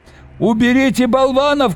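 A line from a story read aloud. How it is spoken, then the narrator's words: Shouting. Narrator (Russian): кричал он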